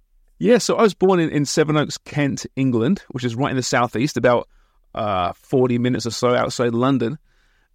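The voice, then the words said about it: Lovely non-Canadian accent. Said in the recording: “that lovely accent. It is unlikely you're a native Torontonian.”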